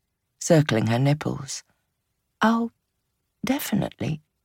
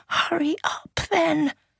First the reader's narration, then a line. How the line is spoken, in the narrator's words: she gasped